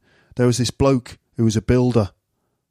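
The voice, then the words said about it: Mancunian impression of Karl Pilkington. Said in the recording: “you can hear his like Mancunian accent ... with Carl is that when he speaks, it's like his mouth stays open like that. He doesn't close his mouth when he's stopped speaking”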